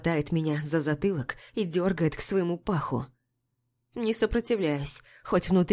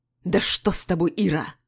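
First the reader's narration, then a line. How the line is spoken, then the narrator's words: Angry raven growling. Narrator (Russian): Зло рычит ворон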